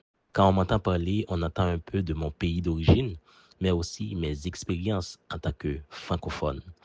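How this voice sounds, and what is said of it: Warm, musical Haitian French accent. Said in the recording (French): “Mon accent, je le décrirais comme un pont vivant entre mes racines haïtiennes et mon parcours à travers la francophonie. C'est un accent qui porte la chaleur, les couleurs et surtout la musicalité d'Haïti”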